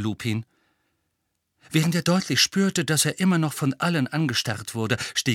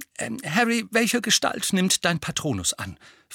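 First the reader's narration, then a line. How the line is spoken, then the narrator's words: Plain. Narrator (German): fragte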